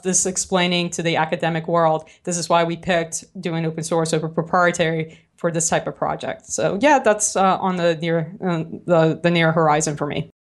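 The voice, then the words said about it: New Orleans accent. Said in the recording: “my New Orleans accent”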